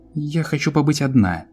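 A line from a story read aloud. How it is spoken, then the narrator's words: Angry woman. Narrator (Russian): сердито сказала вампирша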